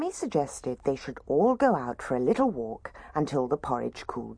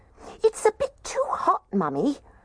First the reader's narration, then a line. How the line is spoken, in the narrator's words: The little baby bear squeaked